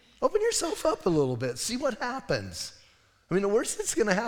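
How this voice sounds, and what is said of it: Usual voice. Nothing is said of it.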